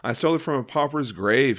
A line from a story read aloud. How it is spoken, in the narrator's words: he says